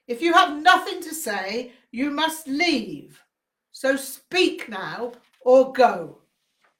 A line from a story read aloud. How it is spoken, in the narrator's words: Rinpoche shouted